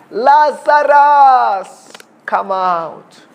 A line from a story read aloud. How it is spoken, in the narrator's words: Jesus Christ called out in a loud voice